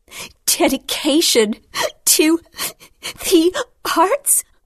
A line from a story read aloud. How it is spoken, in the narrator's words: said between breaths